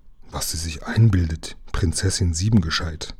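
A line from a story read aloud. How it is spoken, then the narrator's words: Gloomy murmur. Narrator (German): murmelte düster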